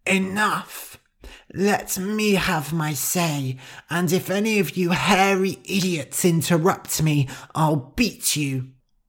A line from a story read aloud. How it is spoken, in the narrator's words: a mouse as thin as a twig shouted